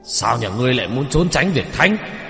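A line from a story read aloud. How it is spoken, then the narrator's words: Angry shout. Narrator (Vietnamese): Ông quát lên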